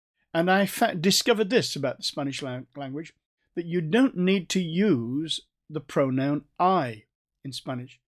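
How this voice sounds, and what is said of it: North Staffordshire English accent. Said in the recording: “Sorry about my accent. This is how we speak Spanish in North Staffordshire.”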